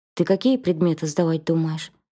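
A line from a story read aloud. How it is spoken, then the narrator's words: Businesslike question. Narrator (Russian): спросил меня Марат деловым тоном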